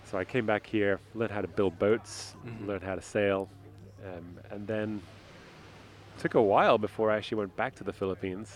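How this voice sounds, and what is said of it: British accent. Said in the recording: “Your accent gives away that you are not from San Francisco originally”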